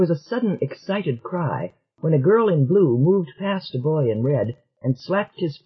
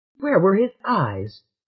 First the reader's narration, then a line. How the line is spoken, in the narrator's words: demanded Selene indignantly